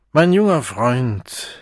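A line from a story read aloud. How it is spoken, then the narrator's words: Loud, solemnly stern. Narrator (German): sagte der Erzchormeister laut und mit feierlicher Strenge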